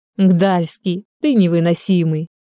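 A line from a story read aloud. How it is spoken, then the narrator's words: Laughing. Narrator (Russian): рассмеялась Ольга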